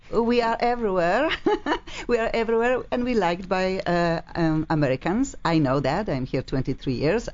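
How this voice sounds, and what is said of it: Strong non-American accent. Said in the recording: “I just cannot get rid of my accent ... funky accents”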